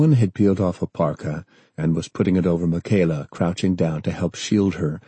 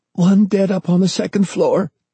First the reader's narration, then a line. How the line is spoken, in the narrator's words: Grace gasped